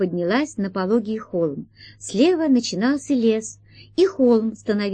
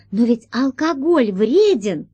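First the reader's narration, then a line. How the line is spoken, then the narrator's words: Exclaiming. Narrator (Russian): воскликнула Алиса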